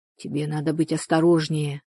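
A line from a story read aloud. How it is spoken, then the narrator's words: Whisper. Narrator (Russian): прошептал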